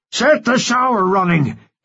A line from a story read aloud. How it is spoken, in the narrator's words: he screamed